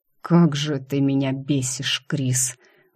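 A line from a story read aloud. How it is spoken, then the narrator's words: Breathed up close. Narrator (Russian): выдохнул он почти мне в губы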